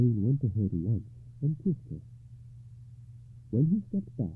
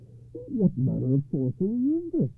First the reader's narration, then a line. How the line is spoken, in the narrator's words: he cried hoarsely